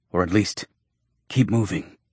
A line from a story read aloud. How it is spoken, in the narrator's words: Jonas panted